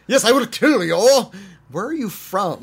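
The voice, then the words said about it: Imitates another person's put-on accent. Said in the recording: “he was doing the same accent he did in like Buckaroo Banzai”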